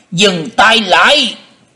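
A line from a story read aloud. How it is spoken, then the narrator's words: Booming shout from above. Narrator (Vietnamese): từ trên không có tiếng quát lên lòng lộng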